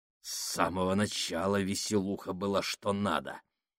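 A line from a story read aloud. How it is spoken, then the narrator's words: Contemptuous hiss. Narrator (Russian): презрительно прошипел Фабрини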